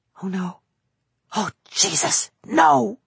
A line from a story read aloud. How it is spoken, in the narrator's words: whispered